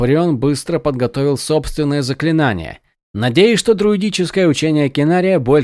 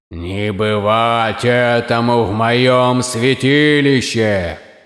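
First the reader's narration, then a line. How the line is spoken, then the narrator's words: Loud declaration. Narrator (Russian): громко заявил голос Кинария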